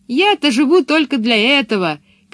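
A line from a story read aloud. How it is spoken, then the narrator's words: Shout. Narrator (Russian): крикнула она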